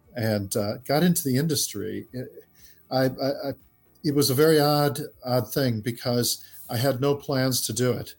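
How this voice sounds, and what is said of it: Midwestern American accent. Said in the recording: “we grew up in the Midwest in the United States. You can tell by my accent”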